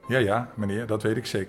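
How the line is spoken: Plain. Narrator (Dutch): zei Langeraas

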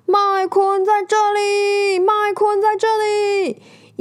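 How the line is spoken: Booming loud shout. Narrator (Chinese): 直升机用洪亮的声音大喊

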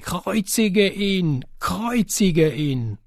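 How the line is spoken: Crowd shouting. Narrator (German): die Hohepriester und die Diener ihn sahen, schrien sie

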